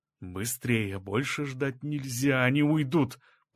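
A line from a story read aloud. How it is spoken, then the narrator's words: Whisper. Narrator (Russian): прошептал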